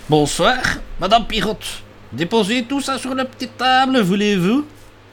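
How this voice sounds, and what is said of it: Put-on Brussels accent. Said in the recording (Dutch): “Zullen we monsieur Alambic, de professeur Alambic, een beetje Brussels accent geven?”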